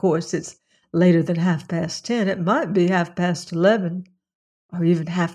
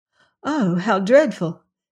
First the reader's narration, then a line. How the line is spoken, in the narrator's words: she exclaimed, without, however, any very real conviction